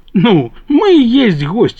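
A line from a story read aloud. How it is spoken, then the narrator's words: Laughing. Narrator (Russian): засмеялся дядя Дима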